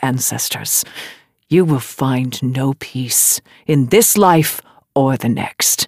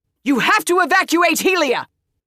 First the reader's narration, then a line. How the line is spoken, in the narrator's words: She shouted to the Hierarch over the din